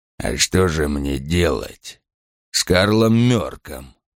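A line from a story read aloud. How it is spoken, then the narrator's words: Mutter. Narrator (Russian): пробормотал он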